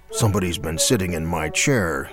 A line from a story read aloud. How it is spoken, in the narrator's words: he growled